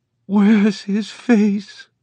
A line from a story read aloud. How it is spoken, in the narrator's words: he cried